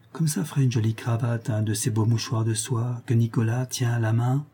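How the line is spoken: Said quietly. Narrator (French): dit tout bas à sa petite sœur

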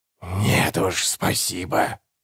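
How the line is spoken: Growl from darkness. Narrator (Russian): прорычал из темноты голос

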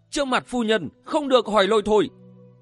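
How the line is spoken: Old woman shouting. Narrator (Vietnamese): Lão bà hét lên

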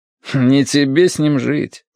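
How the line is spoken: Wry snort. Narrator (Russian): хмыкнул Корнеич

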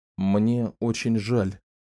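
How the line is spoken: Quiet. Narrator (Russian): тихо проговорил Ричард

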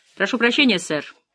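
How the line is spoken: Hurried. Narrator (Russian): торопливо произнесла секретарша

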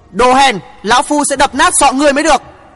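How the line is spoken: Old man shouting. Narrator (Vietnamese): Tiếp theo tiếng hét, một ông lão

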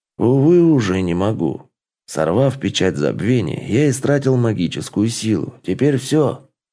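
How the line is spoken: Calm explanation. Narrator (Russian): Бельфидор спокойным голосом объяснил

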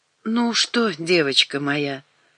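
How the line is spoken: Tender, pitying. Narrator (Russian): начала Светлана ласково, жалея Наташку до невозможности

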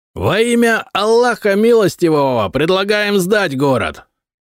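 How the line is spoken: Yelling horseman. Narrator (Russian): заорал всадник

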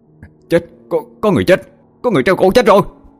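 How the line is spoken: Panicked scream. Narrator (Vietnamese): một người nào đó hốt hoảng hét lên

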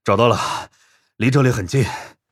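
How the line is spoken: Breathless. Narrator (Chinese): 柴荣和南京组的成员气喘吁吁

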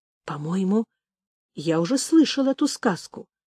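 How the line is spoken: Whispering. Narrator (Russian): прошептал Орех

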